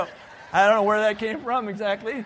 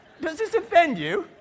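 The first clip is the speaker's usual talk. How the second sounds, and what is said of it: Slight put-on British accent. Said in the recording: “He had a little bit of a British accent.”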